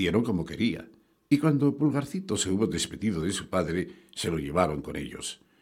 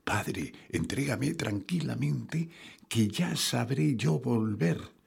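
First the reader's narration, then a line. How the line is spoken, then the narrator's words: Whispered into ear. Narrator (Spanish): le susurró al oído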